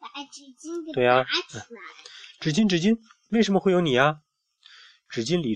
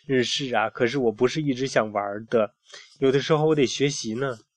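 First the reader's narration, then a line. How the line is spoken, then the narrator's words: Laughing. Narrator (Chinese): 菲尔也笑了，他说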